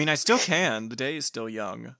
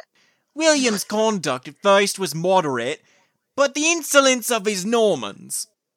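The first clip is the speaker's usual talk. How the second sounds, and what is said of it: Deliberately bad Cockney accent. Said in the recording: “a really bad Cockney accent”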